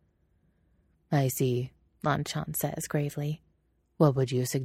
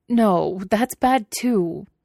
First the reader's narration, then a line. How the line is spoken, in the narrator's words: he cries